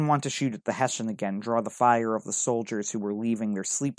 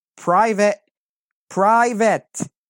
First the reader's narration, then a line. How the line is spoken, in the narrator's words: yelling desperately